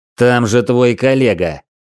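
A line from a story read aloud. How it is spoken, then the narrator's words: Furious shout. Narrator (Russian): выкрикнул я, в ярости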